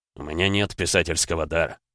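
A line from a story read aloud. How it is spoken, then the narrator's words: Mumbling with a smirk. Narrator (Russian): пробормотал Эдгар, усмехнувшись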